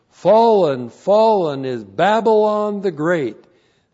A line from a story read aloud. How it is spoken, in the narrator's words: With a mighty voice, he shouted